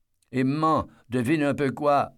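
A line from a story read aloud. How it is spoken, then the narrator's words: Yelling. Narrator (French): hurle Joe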